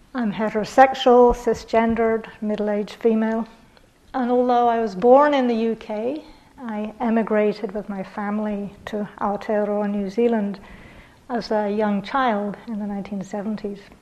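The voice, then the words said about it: British accent, not upper class. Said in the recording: “this accent is actually not upper class, as sometimes people think”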